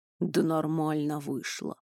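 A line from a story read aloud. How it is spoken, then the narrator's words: Mumble. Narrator (Russian): пробормотал Туч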